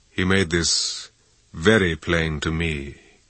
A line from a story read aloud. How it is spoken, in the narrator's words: Ramsay said dryly